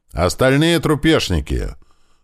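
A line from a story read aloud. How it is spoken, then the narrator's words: Soldier's sudden shout. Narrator (Russian): тут же крикнул кто-то из бойцов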